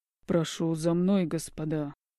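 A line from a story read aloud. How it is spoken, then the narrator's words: Mockingly cold reply. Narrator (Russian): Издевательски холодно отвечает Ассандр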